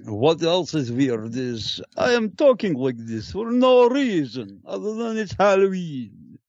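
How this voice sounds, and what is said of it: Bad put-on vampire character voice. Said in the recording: “really, really bad impression of the guy from the hilarious House of Dr. Frightenstein ... I'm doing a Jewish vampire ... that damn voice”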